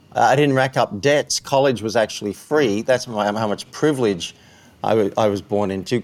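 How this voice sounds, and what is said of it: Australian accent. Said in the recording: “I was trying to figure the accent, and I just never want to, you know, go with English versus Australian”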